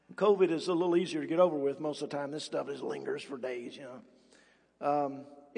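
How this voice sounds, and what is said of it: Sick, rough-sounding voice. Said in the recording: “I am a little bit under the weather. My voice is messed up. I've got the Ohio crud”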